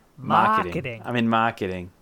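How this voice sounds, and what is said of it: Put-on Boston accent. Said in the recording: “So that's what this guy sounds like... the Boston accent is out”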